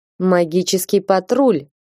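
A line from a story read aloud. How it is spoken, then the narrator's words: Mocking tone. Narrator (Russian): издевательским тоном произнес маг с выпускного курса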